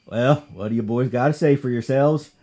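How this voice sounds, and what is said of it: Put-on Southern accent. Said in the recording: “I- am going to try to do a southern accent here for the sheriff”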